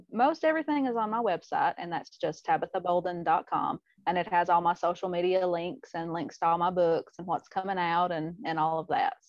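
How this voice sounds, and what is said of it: Southern US accent, Tennessee. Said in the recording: “where your accent is from ... I know it's the South ... Tennessee”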